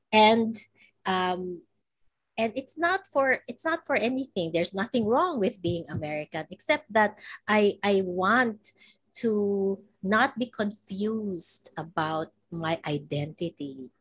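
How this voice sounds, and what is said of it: Filipino accent. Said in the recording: “I don't apologize for being Filipino. I don't apologize for my accent”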